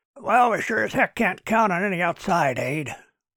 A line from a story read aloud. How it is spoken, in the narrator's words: grumbled Mike Wilder